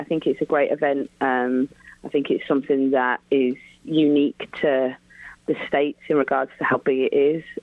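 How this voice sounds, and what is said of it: English accent. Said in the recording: “You're hearing the wonderful accent of Laura Harvey ... had a great career in England”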